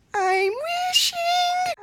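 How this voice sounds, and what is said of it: Snow White character voice impression. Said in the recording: “can you do a good Snow White impression? ... the part where I feel like her voice is the most annoying is the I am wishing song ... Yep, that's good.”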